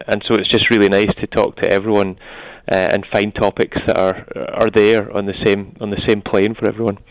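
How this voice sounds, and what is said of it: Scottish accent. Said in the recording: “you're from Scotland. We can tell that from your lovely accent”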